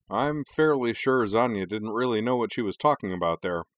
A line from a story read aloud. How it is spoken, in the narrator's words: play-by-play man Kenji said dryly